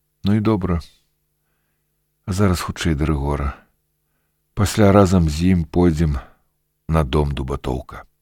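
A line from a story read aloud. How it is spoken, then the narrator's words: Calm reply. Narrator (Belarusian): Я зусім спакойна адказаў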